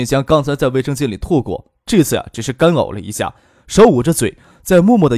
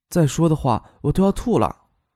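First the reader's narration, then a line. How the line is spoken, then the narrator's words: Whispering in ear. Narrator (Chinese): 唐静 附到他耳边，悄声的说道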